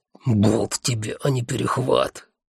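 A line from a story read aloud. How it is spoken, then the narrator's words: Hissing spider. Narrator (Russian): зашипел паук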